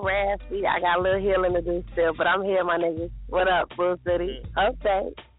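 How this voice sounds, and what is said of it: Raspy voice. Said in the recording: “you're a little raspy this morning”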